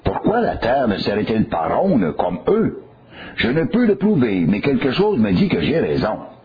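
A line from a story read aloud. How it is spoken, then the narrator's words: Exclaimed. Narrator (French): l'observateur s'écria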